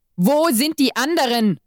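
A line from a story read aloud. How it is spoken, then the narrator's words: Angry shout. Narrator (German): schrie mich wütend an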